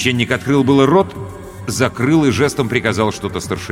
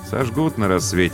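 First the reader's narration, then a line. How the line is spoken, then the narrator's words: Muttered. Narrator (Russian): пробормотал Бено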